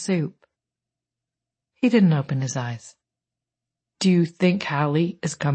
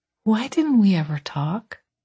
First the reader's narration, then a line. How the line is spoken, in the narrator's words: He sighed